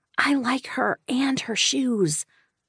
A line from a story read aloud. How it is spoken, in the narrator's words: Sloane whispered